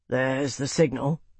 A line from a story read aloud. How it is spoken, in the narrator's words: Marcus murmured